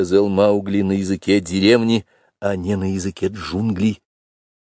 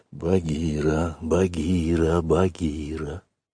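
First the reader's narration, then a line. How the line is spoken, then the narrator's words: Insistent whisper. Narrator (Russian): шептал мальчик настойчиво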